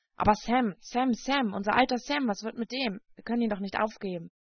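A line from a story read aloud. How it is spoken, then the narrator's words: Perplexed, annoyed murmur. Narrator (German): murmelte ratlos und ärgerlich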